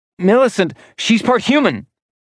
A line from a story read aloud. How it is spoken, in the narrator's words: she blurted out, cutting him off